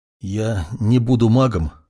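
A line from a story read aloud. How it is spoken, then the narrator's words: Trembling voice. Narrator (Russian): дрогнувшим голосом произнес Юринай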